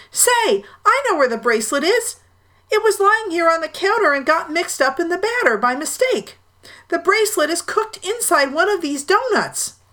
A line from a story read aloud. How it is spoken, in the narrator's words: he shouted